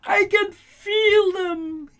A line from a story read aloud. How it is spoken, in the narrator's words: he wailed